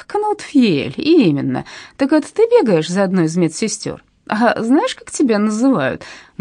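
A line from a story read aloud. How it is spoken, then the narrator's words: Man laughing. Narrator (Russian): Мужчина засмеялся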